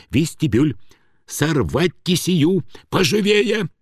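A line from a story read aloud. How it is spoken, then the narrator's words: Hurried whispered order. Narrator (Russian): Студзинский торопливым шепотом отдавал им приказание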